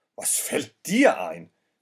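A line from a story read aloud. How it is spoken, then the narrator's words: Man shouting angrily. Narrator (German): schrie der Mann es an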